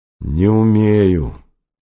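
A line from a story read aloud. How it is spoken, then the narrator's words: Dejected student. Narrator (Russian): уныло сказал двоечник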